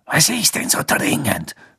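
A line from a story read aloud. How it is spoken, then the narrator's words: Hissing. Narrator (German): Snape zischen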